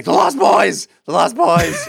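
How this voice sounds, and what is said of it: Imitates another person's voice. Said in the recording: “great Dan impression ... He sounds exactly like that”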